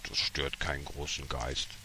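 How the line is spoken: Fat man murmuring. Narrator (German): Der Dicke murmelte

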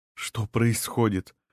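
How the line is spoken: Quiet question. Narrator (Russian): тихо спросила

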